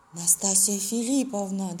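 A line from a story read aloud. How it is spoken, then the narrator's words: Trembling voice. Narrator (Russian): дрожащим голосом проговорил Афанасий Иванович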